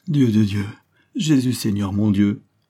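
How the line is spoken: Sobbing on waking. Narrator (French): sanglotait-elle au réveil

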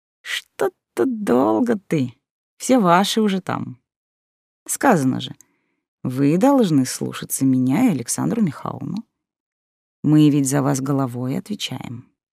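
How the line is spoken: Purring. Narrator (Russian): продолжал он мурлыкать

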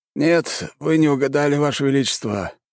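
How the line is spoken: Sighing. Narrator (Russian): вздохнул слуга

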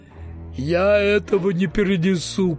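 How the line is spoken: Groaning. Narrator (Russian): простонала она

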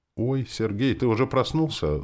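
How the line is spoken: Gentle question. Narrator (Russian): спрашивает ласково

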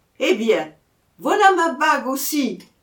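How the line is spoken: Shouting, caught up in game. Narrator (French): cria Maguelone piqué au jeu

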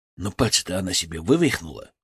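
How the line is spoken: Quiet. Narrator (Russian): тихо сказал Семен

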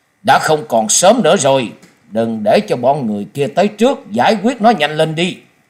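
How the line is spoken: Harsh sudden command. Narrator (Vietnamese): đột nhiên gằn giọng ra lệnh

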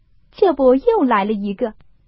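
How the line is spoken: Group laughing. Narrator (Chinese): 都笑道

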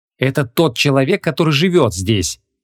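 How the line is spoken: Irritated explanation. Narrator (Russian): раздраженно объяснила Вон

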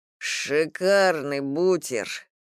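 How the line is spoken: Moaning with full mouth. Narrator (Russian): простонал Ваня с набитым ртом

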